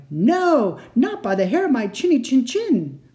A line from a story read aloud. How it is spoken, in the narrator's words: The second one cried